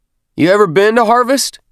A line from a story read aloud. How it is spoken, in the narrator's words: Healy shouted over the howl of the shuttle's thrusters